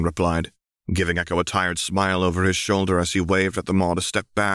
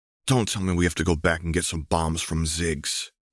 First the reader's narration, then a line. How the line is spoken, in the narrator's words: Echo muttered